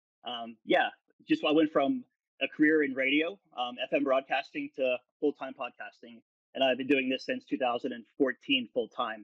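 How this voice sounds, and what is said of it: Polished radio DJ voice. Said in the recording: “You have such a radio DJ voice too.”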